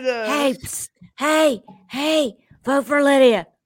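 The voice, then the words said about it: Whispering. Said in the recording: “whispering”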